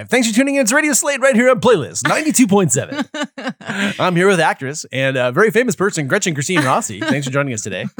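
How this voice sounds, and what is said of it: Radio announcer voice. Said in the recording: “radio announcer voice”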